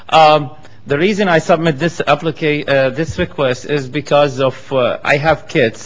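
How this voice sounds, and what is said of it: Strong non-native accent. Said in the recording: “Maybe it's hard to understand my accent”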